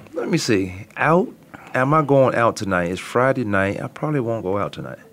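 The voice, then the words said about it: Raspy throat, hoarse voice. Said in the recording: “Now my throat is too raspy, and they might take it for a sexy voice”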